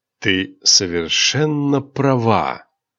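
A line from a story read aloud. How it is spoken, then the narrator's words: Mesmerizing tone. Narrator (Russian): завораживающим тоном произнес Дархарс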